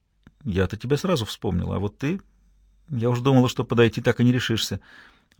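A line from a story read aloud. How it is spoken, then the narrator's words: Quiet, secretive reply. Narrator (Russian): Виола ответила так же тихо, чтобы подруга не услышала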